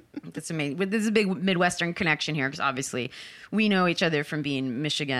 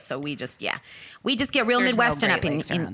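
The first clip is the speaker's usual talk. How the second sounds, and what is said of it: Put-on New Jersey accent. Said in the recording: “I just did like a Jersey accent when I was like, we get real Midwestern up in here.”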